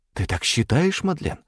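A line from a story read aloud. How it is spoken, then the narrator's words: Loud whisper. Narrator (Russian): громким шепотом произнесла Агата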